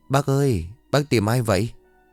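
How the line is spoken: Speaking after a sigh. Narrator (Vietnamese): Xong cái thở dài, Vi lại lên tiếng

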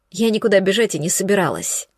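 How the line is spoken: Gloomy. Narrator (Russian): мрачно ответила Есения

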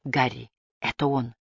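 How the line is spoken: Whisper. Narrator (Russian): прошептал Эдгар

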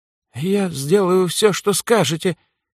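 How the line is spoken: Frightened babbling. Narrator (Russian): испуганно пролепетал Вильгельм, неожиданно осознав, что его жизнь впервые оказалась под реальной угрозой

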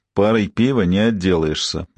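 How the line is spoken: Grim reply. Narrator (Russian): мрачно ответил Кевин

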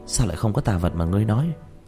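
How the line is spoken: Displeased. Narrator (Vietnamese): Hà Dương khẽ nhíu mày

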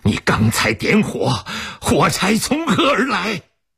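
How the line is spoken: Furious shout. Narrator (Chinese): 一腔怒火扑到他身上，吼道

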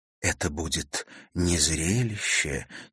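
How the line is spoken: Quiet. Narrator (Russian): тихо произнесла она

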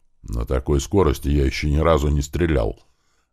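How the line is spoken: Grumbled. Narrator (Russian): Заворчал Слива

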